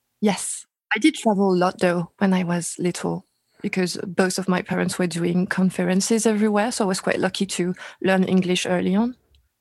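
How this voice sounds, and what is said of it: Non-American foreign accent. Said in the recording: “You obviously have an accent. You're not from the United States.”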